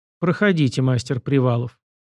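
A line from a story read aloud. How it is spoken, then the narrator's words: Icy, cold tone. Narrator (Russian): Марина Афанасьевна сказала ледяным тоном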